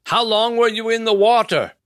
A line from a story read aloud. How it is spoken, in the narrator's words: Nevin yelled